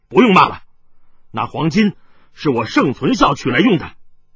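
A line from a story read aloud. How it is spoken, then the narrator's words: Loud. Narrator (Chinese): 紫心剑客盛存孝突然大声说道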